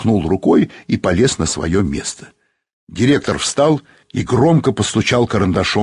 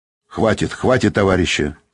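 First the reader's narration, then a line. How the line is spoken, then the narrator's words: Stern. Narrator (Russian): строго сказал он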